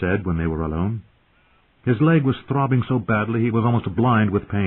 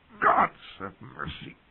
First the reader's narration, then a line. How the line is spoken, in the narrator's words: he muttered, swallowing his agony